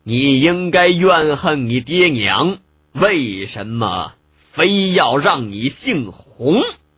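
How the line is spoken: Cold and slow. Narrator (Chinese): 凌暴鹤脸上一片冰冷，慢慢道

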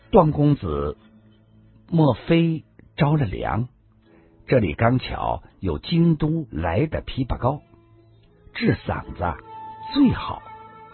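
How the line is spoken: Soft, caring. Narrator (Chinese): 白衣丽人充满了关怀，柔声的说道

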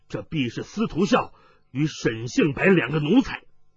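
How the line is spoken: Angry. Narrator (Chinese): 雷鞭怒道

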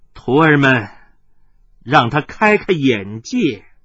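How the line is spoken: Laughing. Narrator (Chinese): 大笑声中，他……说道

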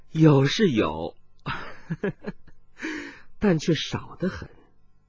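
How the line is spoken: Giggling after silence. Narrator (Chinese): 殷频默然半晌，又咯咯的笑道

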